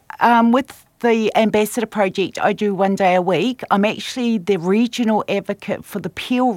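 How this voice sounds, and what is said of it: Strong New Zealand accent. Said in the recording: “I'm from New Zealand, so I still have quite a strong Kiwi accent”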